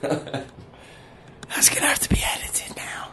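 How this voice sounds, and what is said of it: Whispering. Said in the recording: “why I'm whispering? ... is whispering”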